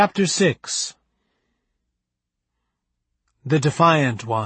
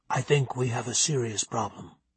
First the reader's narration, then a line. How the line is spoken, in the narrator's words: Rudy whisper to Lillian